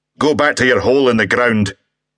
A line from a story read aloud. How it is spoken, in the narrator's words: Angus barked